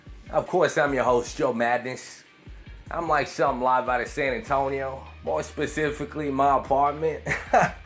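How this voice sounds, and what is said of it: Southern American twang. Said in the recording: “that hobo with his southern twang, a man with a million dollar voice”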